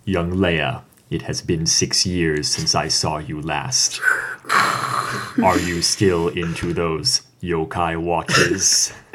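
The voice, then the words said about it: Darth Vader character voice. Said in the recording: “to do the Vader voice.”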